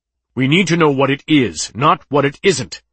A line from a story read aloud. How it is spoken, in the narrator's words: snapped Chitelo